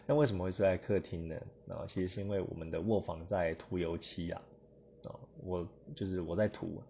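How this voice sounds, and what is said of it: Quiet, hushed speaking voice. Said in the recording (Chinese): “今天我们录制的声音呢会比较小声一点，因为老婆跟小孩都已经睡了……那为什么今天特别小声呢？”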